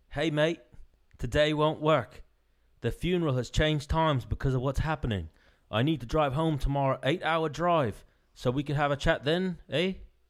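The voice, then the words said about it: Imitated Australian accent. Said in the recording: “should I go for an Australian accent? ... That didn't sound. ... we'll compare mine and his Australian accent.”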